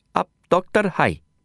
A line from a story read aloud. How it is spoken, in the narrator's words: he asked